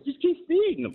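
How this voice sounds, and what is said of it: Imitates another person's voice. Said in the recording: “In my Zeke Elliott voice”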